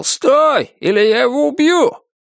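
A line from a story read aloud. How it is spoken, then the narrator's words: Screaming. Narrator (Russian): Главарь завопил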